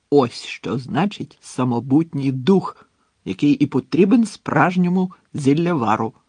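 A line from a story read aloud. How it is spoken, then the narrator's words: Joyful exclamation. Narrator (Ukrainian): радісно вигукнув Слизоріг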